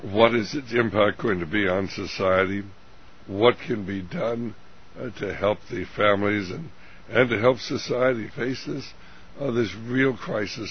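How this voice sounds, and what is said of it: Hoarse, weak voice. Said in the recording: “my voice is... not as good as it was when we did our last program. I'm having a little laryngitis”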